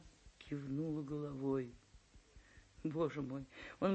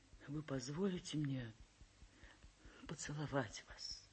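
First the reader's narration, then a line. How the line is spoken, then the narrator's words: Trembling voice question. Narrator (Russian): весь дрожа, трепещущим голосом спросил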